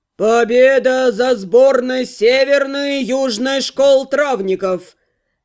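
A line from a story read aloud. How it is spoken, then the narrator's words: Loud announcement. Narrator (Russian): громко возвестил председатель судейства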